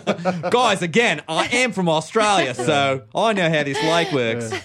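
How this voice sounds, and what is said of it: Not-great Australian accent. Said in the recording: “You could do an Australian accent... Not a good one... It's a hard accent.”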